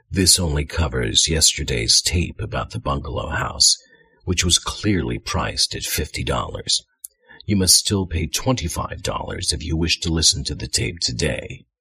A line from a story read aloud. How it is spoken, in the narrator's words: Dalla in her coldest voice said